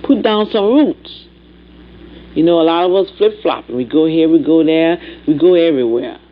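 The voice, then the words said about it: Speaker's own noticeable accent. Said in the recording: “There's my accent, I'm sorry. Some people can't stand it.”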